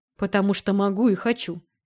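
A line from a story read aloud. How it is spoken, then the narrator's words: With a snort. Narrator (Russian): хмыкнул он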